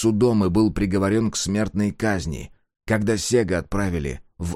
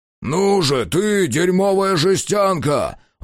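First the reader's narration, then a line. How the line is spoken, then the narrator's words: Shout. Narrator (Russian): выкрикнул Ульрих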